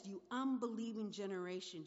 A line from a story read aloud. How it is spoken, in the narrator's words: Jesus replied